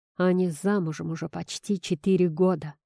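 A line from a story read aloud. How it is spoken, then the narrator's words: Panting growl. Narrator (Russian): Судорожно дыша, прорычал Никита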